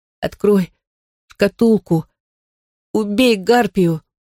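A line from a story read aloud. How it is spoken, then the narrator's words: Pained weak whisper. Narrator (Russian): Девочка вскрикнула от боли и сумела прошептать только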